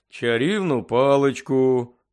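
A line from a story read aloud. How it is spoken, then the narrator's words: Grumbling. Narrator (Ukrainian): буркнув працівник Служби безпеки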